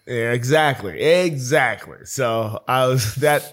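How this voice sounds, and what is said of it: Hoarse, strained voice. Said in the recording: “I lost my voice this weekend.”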